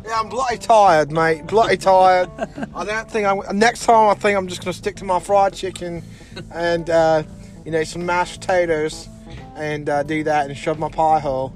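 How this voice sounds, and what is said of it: Put-on Australian accent. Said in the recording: “as ... kind of hinted at with his Australian accent”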